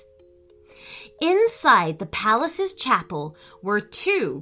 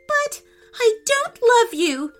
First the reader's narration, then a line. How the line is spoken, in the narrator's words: wailed the princess